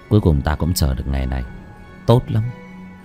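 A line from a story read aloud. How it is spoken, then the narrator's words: Soft chuckle. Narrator (Vietnamese): Bác cổ khẽ cười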